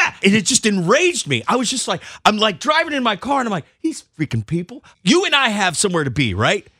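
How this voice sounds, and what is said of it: Usual voice. Nothing is said of it.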